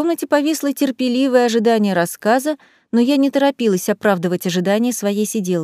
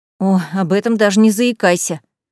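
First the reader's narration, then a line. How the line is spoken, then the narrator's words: Angry snort. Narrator (Russian): Сирена почему-то зло фыркнула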